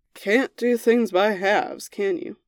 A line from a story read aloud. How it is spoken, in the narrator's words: He muttered